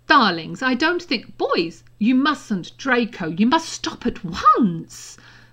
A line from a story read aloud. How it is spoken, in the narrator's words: Mother said very loudly